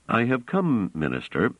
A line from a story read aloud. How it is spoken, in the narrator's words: said Trevise calmly